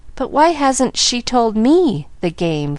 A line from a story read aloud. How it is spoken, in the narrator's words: faltered Miss Polly